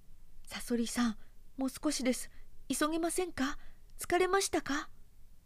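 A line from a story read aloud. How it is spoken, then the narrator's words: Pitiful voice. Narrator (Japanese): と言いましたサソリが哀れな声で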